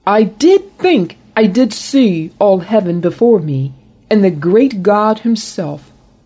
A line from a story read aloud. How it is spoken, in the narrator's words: blurted the composer